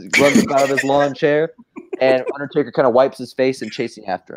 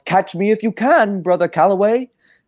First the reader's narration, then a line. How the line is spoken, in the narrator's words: Hardy yells